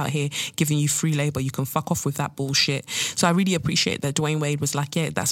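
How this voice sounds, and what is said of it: Usual voice. Nothing is said of it.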